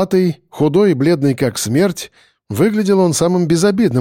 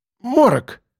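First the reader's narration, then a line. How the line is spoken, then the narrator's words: Thin man exclaiming. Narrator (Russian): воскликнул худой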